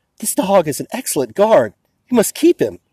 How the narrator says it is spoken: A woman excitedly told

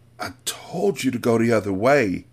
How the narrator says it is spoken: Anissa groaned

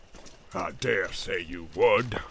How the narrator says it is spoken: snarled Ugluk

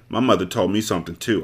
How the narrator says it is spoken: I said harshly

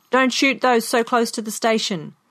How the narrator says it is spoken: A man in a car at the end of the line shouted

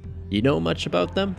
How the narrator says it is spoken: She giggles

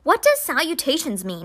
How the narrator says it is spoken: asked, and then he giggled

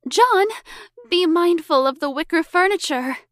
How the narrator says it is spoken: Elizabeth cried

